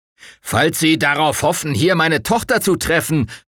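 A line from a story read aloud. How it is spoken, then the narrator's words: Bellowed after him. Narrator (German): brüllte der Colonel ihm nach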